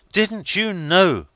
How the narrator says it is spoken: cried I

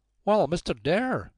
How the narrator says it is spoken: she said in a high, distinct voice with a strong American accent

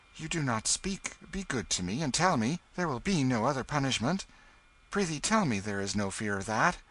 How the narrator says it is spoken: He said eagerly

